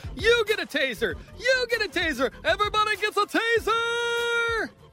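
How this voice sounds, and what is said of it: Oprah Winfrey impression. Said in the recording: “did his best Oprah impression”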